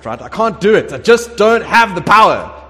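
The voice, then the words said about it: Star Trek character accent. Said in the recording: “I feel like I want to do a Star Trek, but at that accent”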